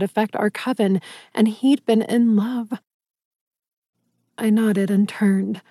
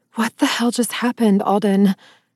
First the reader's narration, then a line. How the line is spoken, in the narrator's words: I gasped breathlessly